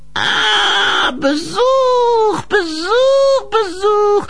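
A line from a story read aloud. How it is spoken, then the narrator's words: Old woman's goat-like croak. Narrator (German): krächzte das alte Weib mit einer Stimme, die an eine sprachbegabte Ziege erinnerte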